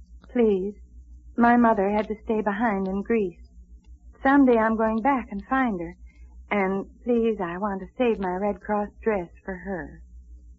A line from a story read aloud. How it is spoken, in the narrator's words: then she looked up timidly and said